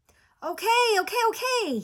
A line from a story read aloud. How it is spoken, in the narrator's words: shouted